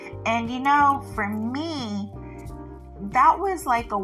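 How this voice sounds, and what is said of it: Usual voice. Nothing is said of it.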